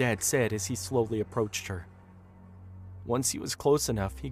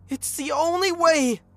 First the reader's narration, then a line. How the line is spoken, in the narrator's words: Angela screamed